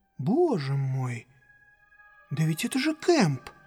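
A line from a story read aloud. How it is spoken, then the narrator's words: Quiet exclamation. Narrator (Russian): чей-то голос негромко воскликнул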